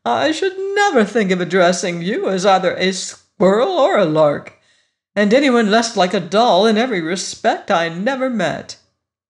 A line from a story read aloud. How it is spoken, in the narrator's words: he exclaimed